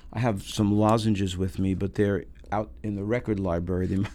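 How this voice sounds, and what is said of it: Voice strained by illness. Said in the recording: “Sorry about my voice. I'm sort of fighting off a cold here.”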